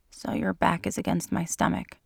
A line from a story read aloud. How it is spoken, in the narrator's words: he said in a soft tone